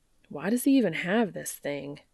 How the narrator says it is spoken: Dean grumbles

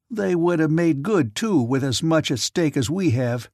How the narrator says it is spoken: snapped Badger

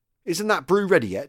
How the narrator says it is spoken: he asked testily

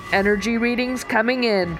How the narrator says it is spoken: Ryan yelled

